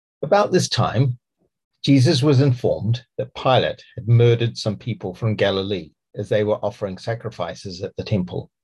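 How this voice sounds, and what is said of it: New Zealand accent. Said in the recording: “I have a Kiwi accent.”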